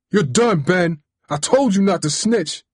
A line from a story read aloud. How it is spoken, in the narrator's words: he yelled like a wild man